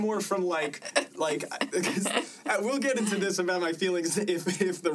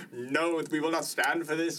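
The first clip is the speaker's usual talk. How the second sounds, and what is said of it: Put-on Norwegian accent. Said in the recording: “How was that Norwegian accent?”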